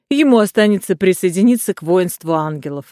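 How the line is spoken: Laughing. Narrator (Russian): рассмеялся француз

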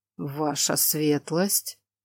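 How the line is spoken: Incredulous mutter. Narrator (Russian): Недоверчиво пробормотал Роналд

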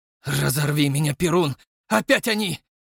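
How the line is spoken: Furious exhale. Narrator (Russian): яростно выдохнул Ратников

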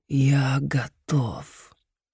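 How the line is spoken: Hissing inner voice. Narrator (Russian): В голове Джима прошипел знакомый голос

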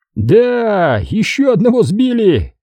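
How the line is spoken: Exclaimed. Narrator (Russian): воскликнул Тре

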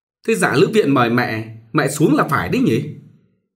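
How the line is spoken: Flustered, hurried. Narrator (Vietnamese): rối rít bà hỏi

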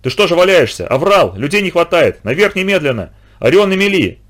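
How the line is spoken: Shouted. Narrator (Russian): крикнул он

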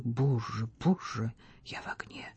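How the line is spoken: Whisper through clenched lips. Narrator (Russian): Вальдемар шептал сквозь стиснутые губы

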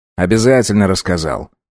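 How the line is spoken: Grumbling. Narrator (Russian): проворчал Август

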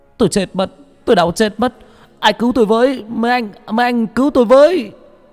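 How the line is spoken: Pained screaming. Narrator (Vietnamese): ở phòng giam của bác Cổ vang lên tiếng gào thét đau đớn

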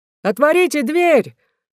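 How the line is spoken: Rough shout. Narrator (Russian): закричал другой грубый голос

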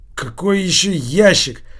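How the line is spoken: Irritated question. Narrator (Russian): раздраженно спросил Килькин

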